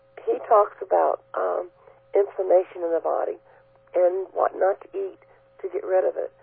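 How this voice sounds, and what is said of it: Hoarse, failing voice. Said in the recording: “now I'm losing my voice,”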